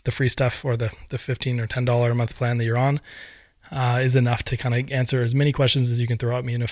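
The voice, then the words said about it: Tired, worn-out voice. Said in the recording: “my voice is running out for the week”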